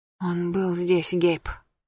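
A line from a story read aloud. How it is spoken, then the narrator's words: Whisper. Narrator (Russian): прошептала она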